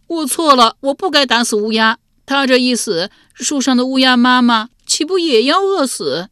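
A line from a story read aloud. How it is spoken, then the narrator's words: Loud crying. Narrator (Chinese): 竟放声哭了起来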